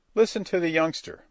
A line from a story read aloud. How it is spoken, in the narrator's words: father chuckled